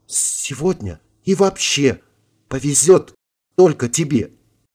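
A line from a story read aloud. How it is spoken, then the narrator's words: Soft whisper. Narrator (Russian): тихо прошептала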